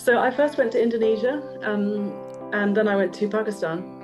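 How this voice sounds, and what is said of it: English accent. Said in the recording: “you've got an English accent there”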